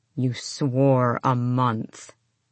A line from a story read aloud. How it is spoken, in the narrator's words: his father growled